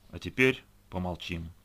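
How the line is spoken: Dry. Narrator (Russian): сухо произнес

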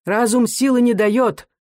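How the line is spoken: Loud, insistent. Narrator (Russian): возражал Рыбин громко и настойчиво

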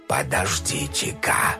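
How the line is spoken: Stunned whisper. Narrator (Russian): ошарашенно прошептал он

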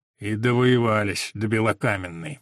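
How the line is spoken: Grumbling. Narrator (Russian): ворчал Ланцов

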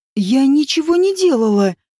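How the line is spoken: Frightened lie. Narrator (Russian): испуганно соврала Нагиня

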